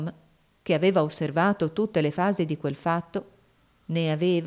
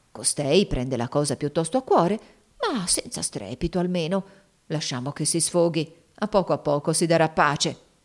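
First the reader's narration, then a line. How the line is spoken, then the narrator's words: Murmuring to oneself. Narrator (Italian): mormorava fra sé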